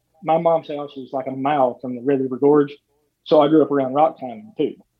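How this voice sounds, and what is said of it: Southern US (Eastern Kentucky) accent. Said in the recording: “people can probably tell by your accent that you're not from Wisconsin ... I'm down here in the South ... Your accent sounds like home to me”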